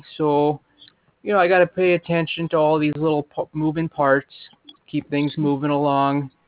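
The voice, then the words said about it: Minnesota accent. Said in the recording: “I feel like I'm getting a Minnesota accent”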